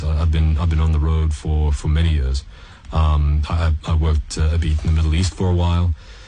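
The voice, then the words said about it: Mixed South African-Canadian accent. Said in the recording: “I'm getting nuances of all sorts of accents ... born, grew up in South Africa, and then my family moved to Canada”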